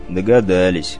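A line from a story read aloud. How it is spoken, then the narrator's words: Gloomy grumble. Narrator (Russian): мрачно проворчал Олег Борисович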